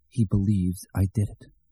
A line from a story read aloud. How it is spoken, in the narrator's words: Mort whispered to the cold western Maine night, and the words came out in ragged chunks, bitten off by his chattering teeth